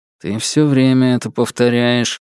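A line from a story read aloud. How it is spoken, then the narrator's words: Mumbled through closed lips. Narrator (Russian): буркнул я, не разжимая губ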